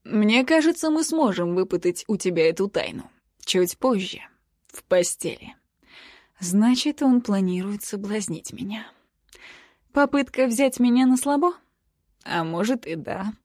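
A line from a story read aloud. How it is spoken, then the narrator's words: Plain. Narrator (Russian): говорит Хейс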